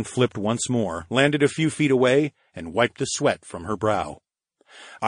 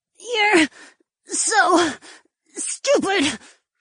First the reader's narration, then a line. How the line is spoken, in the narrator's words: the marchioness croaked out